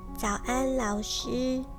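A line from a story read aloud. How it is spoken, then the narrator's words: Very quiet voice. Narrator (Chinese): 小咪也小小声地说了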